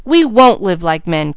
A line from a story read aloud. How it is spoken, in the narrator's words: cried both boys